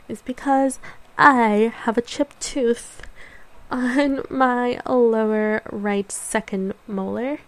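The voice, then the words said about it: Deliberately over-enunciated speech. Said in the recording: “I'm really trying to over-enunciate right now”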